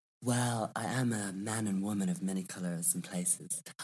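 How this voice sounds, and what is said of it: Mixed American, Australian and English accent. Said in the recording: “your accent, in the little bit of time I've been talking to you, I've picked up on an American accent, an Australian accent, and obviously an English accent, ... it's a mix of everything.”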